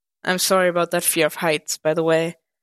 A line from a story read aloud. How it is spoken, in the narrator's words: he chuckled